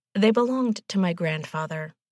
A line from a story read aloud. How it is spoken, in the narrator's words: she said finally